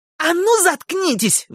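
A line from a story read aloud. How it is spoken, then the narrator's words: Shrieked. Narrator (Russian): взвизгнул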